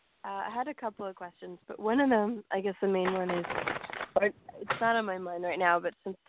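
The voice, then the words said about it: Voice of someone who is sick. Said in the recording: “My voice, I'm sick, so my voice might sound.”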